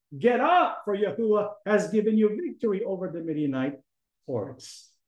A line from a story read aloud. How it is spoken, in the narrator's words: shouted